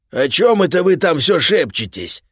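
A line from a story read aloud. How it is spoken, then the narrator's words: Roaring from capsule. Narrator (Russian): проревел Кейта из своей капсулы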